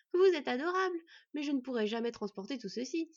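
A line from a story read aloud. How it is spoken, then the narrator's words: Exclaimed. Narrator (French): s'exclama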